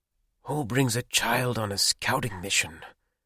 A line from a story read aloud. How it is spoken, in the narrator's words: Nobuto said quietly